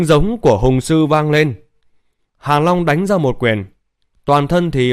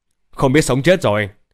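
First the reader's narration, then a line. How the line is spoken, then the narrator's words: Sneering. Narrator (Vietnamese): Hàn Long cười khẩy nói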